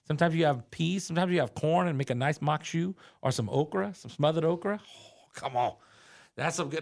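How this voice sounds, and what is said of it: Strong regional swamp accent. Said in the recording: “my accent really started to kind of pop right there ... I'm going to fall full into freaking the swamp”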